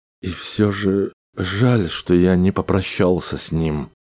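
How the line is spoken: Guilty mumble. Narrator (Russian): пробормотал он виновато

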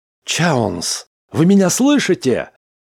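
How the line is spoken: Shouting. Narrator (Russian): кричал Смит

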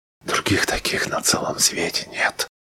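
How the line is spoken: Whispering. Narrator (Russian): шептала Фэй

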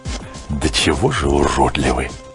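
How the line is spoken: Mutter. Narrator (Russian): пробормотал Кордовир

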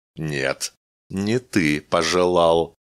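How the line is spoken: Creaky mechanical voice. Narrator (Russian): скрипучим механическим голосом ответила машина

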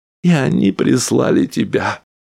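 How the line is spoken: Sobbing. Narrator (Russian): Мэйвис всхлипнула

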